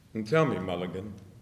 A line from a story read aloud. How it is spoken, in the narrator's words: Stephen said quietly